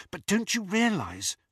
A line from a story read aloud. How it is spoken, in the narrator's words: whispered Hermione